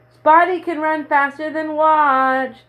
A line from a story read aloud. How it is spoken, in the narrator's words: he put his 2 hands up to his mouth and shouted